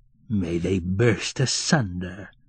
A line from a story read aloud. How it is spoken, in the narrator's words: growled sleepy Fiekla, angrily